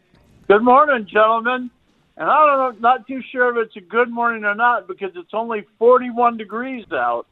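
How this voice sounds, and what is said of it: Southern American drawl. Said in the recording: “I couldn't understand you with that southern drawl.”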